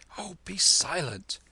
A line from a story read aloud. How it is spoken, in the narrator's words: whispered Kim